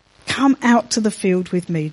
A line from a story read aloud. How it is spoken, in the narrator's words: Jonathan replied